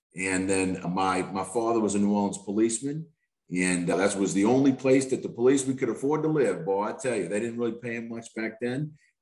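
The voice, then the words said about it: New Orleans accent. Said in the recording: “where that accent comes from ... I was born in New Orleans East”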